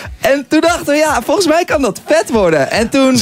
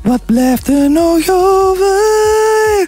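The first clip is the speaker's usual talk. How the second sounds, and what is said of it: Put-on Flemish accent, sung line. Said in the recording (Dutch): “met een Vlaams accent hebben we dat refrein zelf ingezongen”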